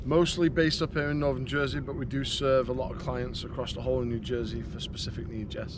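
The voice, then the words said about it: English accent. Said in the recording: “Do you love his accent?”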